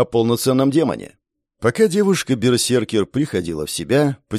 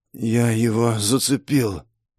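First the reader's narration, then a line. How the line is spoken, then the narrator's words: Barely audible hoarse rasp. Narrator (Russian): еле слышно прохрипел мечник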